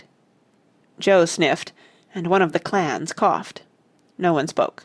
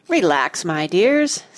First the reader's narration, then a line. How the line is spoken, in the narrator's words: said the apple kindly